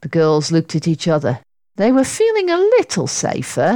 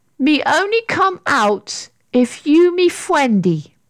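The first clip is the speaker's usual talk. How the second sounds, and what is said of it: Weak, timid little character voice. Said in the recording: “a rather weak little voice said timidly ... This creature didn't sound very frightening at all.”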